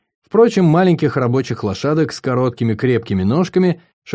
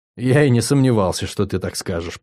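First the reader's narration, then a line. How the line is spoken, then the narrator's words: Muttered. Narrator (Russian): пробормотал я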